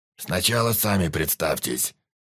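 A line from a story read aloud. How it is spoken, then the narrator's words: Quiet voice. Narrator (Russian): негромким голосом проговорил хозяин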